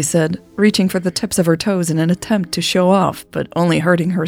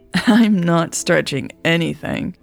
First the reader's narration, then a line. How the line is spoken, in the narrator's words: Raven chuckled